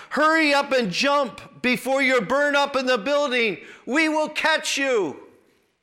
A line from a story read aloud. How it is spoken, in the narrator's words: To which the tenant yelled back